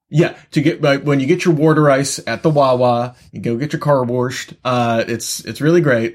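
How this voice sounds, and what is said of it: Bad put-on Philadelphia accent. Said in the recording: “That's my horrible Philly accent.”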